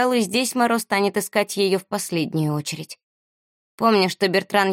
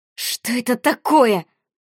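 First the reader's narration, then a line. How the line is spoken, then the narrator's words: Hiss. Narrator (Russian): зашипела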